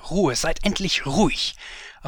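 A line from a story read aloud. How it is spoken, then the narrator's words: Inner voice shouting. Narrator (German): schrie mein Innerstes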